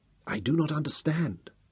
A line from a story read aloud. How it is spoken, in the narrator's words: Memnon whispered